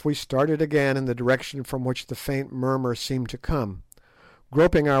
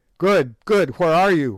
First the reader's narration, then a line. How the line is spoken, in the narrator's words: we shouted in terrified distress